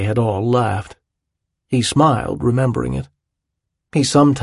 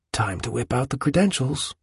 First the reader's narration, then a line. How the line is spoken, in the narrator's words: Citizen would whisper to him